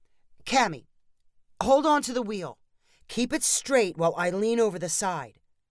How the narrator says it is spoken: shouted Steve when he realized he would not be able to steer and fish out the hat at the same time

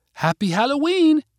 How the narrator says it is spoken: Katie called out

